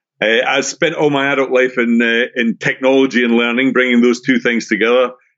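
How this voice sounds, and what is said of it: Scottish accent. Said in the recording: “as you can probably tell, if you're familiar, if you have an ear for accents, I'm originally from Scotland”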